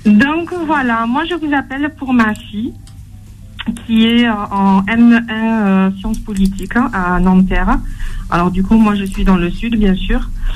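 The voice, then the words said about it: Slight southern French accent. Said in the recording (French): “comme un chouïa d'accent ... Un petit chouïa d'accent de chez vous”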